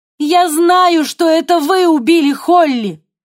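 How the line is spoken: Shouted. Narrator (Russian): крикнула Ева

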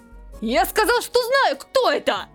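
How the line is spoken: Shout. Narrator (Russian): Крикнул Чуи

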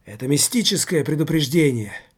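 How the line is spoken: Female jester's exclamation. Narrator (Russian): воскликнула женщина-шут

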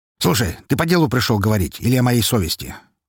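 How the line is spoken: Angry question. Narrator (Russian): зло спросил он в ответ

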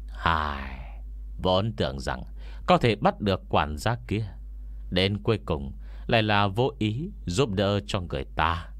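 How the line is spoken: Old man sighing regretfully. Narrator (Vietnamese): Ông già hiềm thay thở dài một hơi, rồi quay đầu nói với Ngô Miễn

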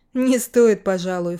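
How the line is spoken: Snort. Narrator (Russian): фыркнул я

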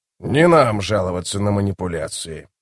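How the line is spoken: Grumbling. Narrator (Russian): проворчал

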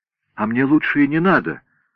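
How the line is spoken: Exclaimed. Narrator (Russian): воскликнул Минутка

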